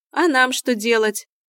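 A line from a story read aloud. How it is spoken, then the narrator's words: Mocking question. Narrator (Russian): насмешливо уточнил Олег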